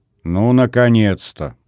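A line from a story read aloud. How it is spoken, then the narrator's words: Grumble. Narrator (Russian): проворчал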